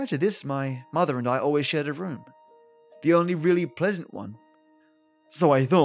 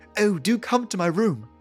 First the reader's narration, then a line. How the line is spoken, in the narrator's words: cried